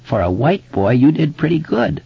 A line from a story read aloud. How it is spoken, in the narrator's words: Mike croaked